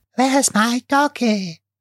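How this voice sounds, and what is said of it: Little ghost girl voice. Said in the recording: “my impression of a little ghost girl ... A very good one.”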